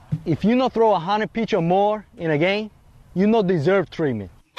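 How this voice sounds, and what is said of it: Fairly good put-on Latin American accent. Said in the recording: “the accent, first of all, is pretty good ... He morphed back into an American there a couple of times”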